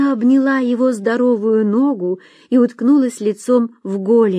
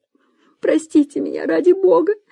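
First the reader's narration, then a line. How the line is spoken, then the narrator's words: Sobbing. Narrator (Russian): всхлипывала она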